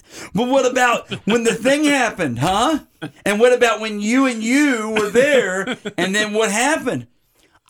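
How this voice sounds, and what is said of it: Imitates another person's voice. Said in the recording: “your Tom Hardy impression is spot on ... I thought it was a pretty good impression. ... People listening thought we took an excerpt from the movie.”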